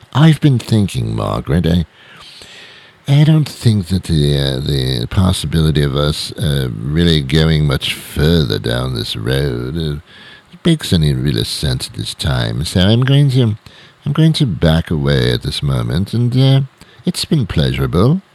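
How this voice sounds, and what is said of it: Put-on British accent. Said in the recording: “if you'd used a British accent”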